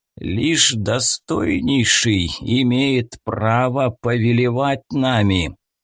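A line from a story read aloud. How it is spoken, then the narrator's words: Satan's creaking voice. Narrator (Russian): проскрипел сатана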